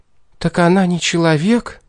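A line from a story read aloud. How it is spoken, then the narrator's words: Shocked breathless exhale. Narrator (Russian): потрясенно выдохнула Энжель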